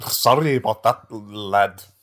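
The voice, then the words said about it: Put-on Scottish accent. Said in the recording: “in Scottish accent.”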